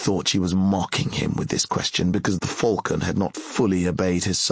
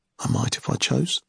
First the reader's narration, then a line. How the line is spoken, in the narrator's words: said in a calm voice